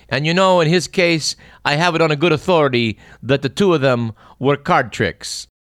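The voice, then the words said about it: Weak Italian accent, Father Guido Sarducci impression. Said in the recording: “Don Novello bit on Saturday Night Live portraying Father Guido Sarducci ... it's not a better Italian accent.”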